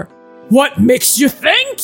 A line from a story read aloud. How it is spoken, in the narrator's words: He asks you gruffly